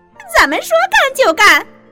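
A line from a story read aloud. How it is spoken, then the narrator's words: Cheering in unison. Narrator (Chinese): 红头细菌和绿头细菌齐声叫好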